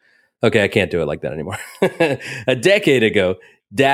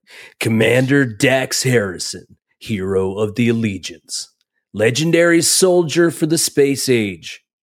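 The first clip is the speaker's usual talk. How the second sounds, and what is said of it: Announcer-style radio voice. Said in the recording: “I got to do it with my, radio voice”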